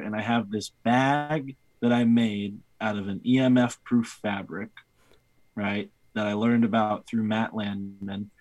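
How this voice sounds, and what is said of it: East Coast American accent. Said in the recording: “my East Coast accent”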